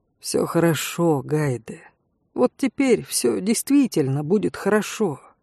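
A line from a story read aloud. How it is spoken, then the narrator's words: Quiet. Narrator (Russian): тихо сказали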